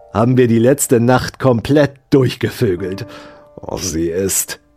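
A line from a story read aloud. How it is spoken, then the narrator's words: Hissed. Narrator (German): zischte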